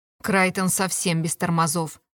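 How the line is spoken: Snorted. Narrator (Russian): Фыркнула шатенка

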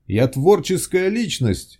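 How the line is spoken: Shouted. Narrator (Russian): выкрикнул Виктор

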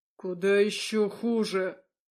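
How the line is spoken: Growl. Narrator (Russian): Теперь он уже рычал

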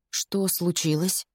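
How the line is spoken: Hoarse question. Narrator (Russian): хрипло спрашиваю я

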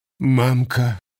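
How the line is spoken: Slight sob, woman. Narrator (Russian): Чуть всхлипнув, кивнула женщина

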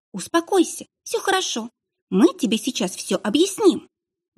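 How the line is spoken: Exclaiming. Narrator (Russian): воскликнула моя копия

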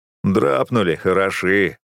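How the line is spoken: Mocking. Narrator (Russian): насмешливо сказал тот, кого окружили бойцы

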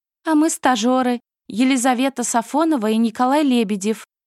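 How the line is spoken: Joyful squeak. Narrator (Russian): радостно пискнула она

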